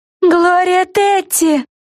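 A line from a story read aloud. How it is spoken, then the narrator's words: Shrieked. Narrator (Russian): завизжала Флафанора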